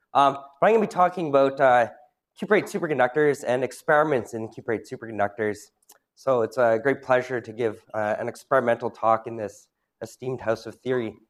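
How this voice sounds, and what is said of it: Rough voice after a cold. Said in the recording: “I had a cold over the weekend. I'm better now, but the voice is still a bit rough”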